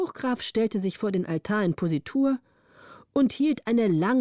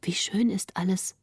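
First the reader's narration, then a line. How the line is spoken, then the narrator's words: Quiet, not to disturb. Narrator (German): sprach Greta leise, um den Grafen nicht zu stören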